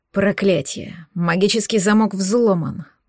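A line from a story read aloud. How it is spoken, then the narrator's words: Growl. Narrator (Russian): прорычал Лисовский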